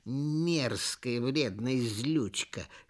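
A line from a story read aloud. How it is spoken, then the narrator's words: Hissed. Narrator (Russian): шипели они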